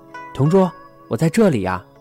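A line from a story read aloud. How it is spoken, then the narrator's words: Calling close to ear. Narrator (Chinese): 他在我耳边喊着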